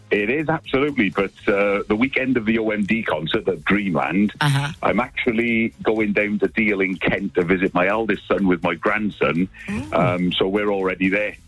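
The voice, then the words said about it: Welsh accent. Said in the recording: “Do I hear a Welsh lilt there? ... Yes, you do. You're a Welsh accent ... don't lose the accent.”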